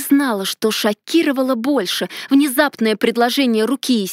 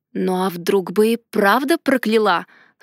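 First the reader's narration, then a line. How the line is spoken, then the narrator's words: Wry snort. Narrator (Russian): хмыкнул он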